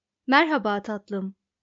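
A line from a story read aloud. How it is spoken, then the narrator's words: Plain. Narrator (Turkish): dedi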